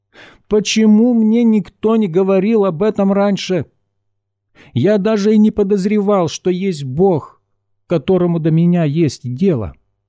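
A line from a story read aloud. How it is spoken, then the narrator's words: Near exclamation. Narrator (Russian): почти воскликнул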